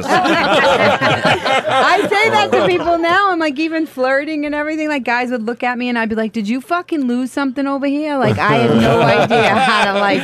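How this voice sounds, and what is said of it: Boston accent. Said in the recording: “that ... accent ... Everybody makes fun of my accent. ... Isn't he from Boston, too?”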